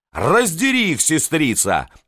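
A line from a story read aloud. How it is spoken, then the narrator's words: Yelling. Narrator (Russian): вопила Екатерина Иоанновна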